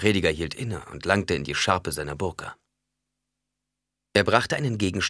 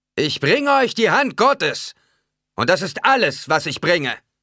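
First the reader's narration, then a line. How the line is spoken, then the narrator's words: Preacher calling. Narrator (German): rief der Prediger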